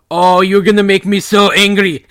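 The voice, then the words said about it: Thick put-on German accent. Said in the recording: “in this oh, like thick German accent”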